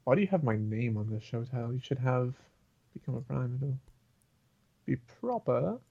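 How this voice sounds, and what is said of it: Slight British-sounding accent. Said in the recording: “I sounded British there for a second ... a tad bit”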